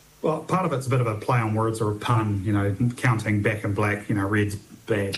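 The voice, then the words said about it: Southland New Zealand accent. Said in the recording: “you can probably tell from my accent, I'm from Southland originally”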